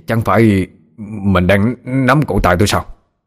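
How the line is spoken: Frightened, stammering question. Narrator (Vietnamese): nhưng vẫn lắp bắp hỏi

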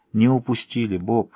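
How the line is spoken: Soft. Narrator (Russian): мягко сказала Кэти

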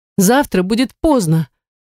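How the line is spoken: Exclaiming. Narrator (Russian): воскликнула я

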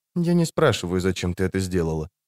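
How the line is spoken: Whispered. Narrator (Russian): шепнула она

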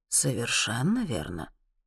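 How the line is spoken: Calm answer. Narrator (Russian): спокойно отвечает Элифас

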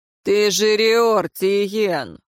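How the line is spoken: Snort. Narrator (Russian): фыркнул Кейр

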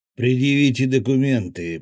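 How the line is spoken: Gruff stocky man's growl. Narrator (Russian): прорычал подошедший ко мне коренастый тип с выпирающей челюстью

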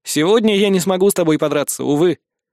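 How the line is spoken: Wry snort. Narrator (Russian): Я хмыкнул

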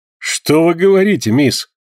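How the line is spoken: Exclamation. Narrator (Russian): воскликнул Джон Манглс

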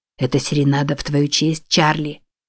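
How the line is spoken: Whisper. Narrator (Russian): прошептал Амбруаз

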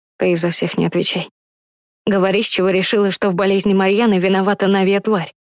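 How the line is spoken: Plain. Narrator (Russian): Пан Артемий сказал

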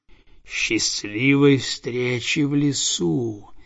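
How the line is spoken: Hissing snake. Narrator (Russian): прошипел уж

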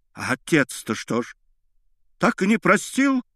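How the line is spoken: Cried out. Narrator (Russian): вскрикнула Анна Андреевна

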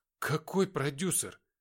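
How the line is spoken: Trembling voice. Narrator (Russian): дрожащим голосом спросил боец

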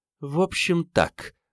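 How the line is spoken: Spoken through teeth. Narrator (Russian): процедила Елена

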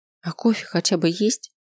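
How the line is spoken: Giggling. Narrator (Russian): хихикнул

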